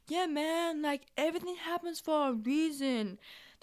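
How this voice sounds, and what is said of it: Bad laid-back hippie voice. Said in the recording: “my hippie impression. That was really bad.”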